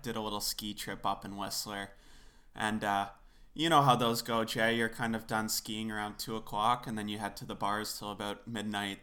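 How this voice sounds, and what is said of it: Raspy voice. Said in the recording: “I'm currently in a little bout with COVID myself right now ... I sound a little raspy now ... the raspy voice, I think it's kind of sexy”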